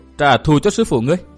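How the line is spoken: Loud mocking laugh. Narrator (Vietnamese): Bạch Y thần nữ cười lớn

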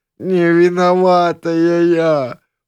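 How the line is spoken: Dismayed wail. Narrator (Russian): взвыла Тарасова, внезапно очень четко представившая, что одержимая монашка полностью права

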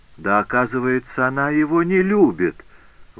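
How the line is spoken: Exclaimed. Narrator (Russian): воскликнула герцогиня

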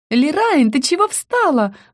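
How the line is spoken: Squeal. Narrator (Russian): взвизгнула Рика

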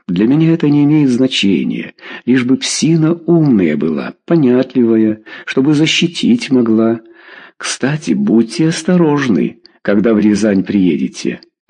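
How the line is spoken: Plain. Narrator (Russian): сказал Харитонов

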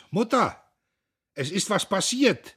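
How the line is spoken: Tearful calling out. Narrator (German): Und die Augen wischend rief er hinaus

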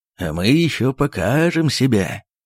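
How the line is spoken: Loud laughter. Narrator (Russian): захохотал Михаил Аверьяныч

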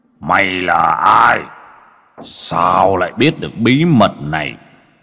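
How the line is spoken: Angry roar. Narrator (Vietnamese): Ba khuôn mặt dưới hồ máu gầm lên tức tối

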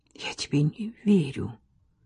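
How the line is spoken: Whispered again. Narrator (Russian): еще раз прошептала

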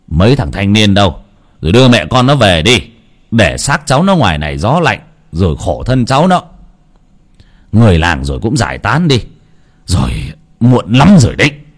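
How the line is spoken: Sigh then shout. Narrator (Vietnamese): Ông Long thở dài rồi quát

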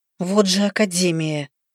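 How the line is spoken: Quiet female cursing. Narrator (Russian): Я тихо ругнулась

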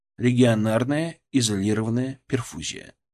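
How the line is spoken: Plain. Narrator (Russian): сказал я

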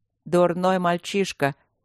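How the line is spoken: Tired. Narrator (Russian): сказал Луциус устало

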